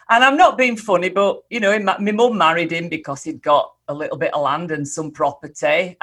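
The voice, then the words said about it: Yorkshire English accent. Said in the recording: “you might be able to tell from this accent ... I were born in a little village called Holmfirth in Yorkshire”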